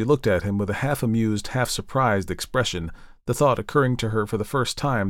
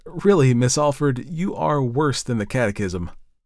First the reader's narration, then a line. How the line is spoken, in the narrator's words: with a perplexed laugh and replied